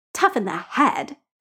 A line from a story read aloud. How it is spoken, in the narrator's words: Stitches snarls